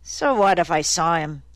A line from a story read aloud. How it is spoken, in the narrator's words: He said irritably